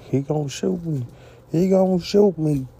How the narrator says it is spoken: Alley Bush was lying down, hollering

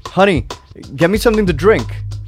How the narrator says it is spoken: the woman all of a sudden yells

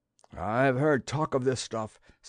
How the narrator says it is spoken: said one of the men nervously

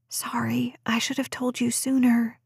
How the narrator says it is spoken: she whispered

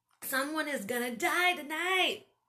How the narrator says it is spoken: I shouted

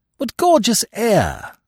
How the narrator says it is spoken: I exclaimed

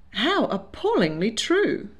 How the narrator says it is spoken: he exclaimed, grimacing

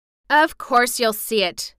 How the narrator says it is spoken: snapped Mary indignantly

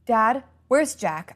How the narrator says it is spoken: I asked urgently

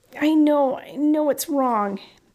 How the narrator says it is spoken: Harry pleaded

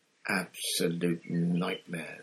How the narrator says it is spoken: said Bagman to Harry in an undertone

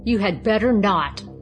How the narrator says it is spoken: growled the king

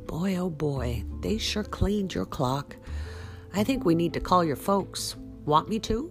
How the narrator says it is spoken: Mason groaned

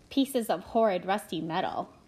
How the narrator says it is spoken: laughed someone

